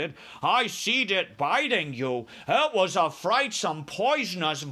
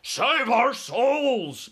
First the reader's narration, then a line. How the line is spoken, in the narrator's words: bellowed the flesh eater